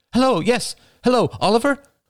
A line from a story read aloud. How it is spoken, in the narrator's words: answering breathlessly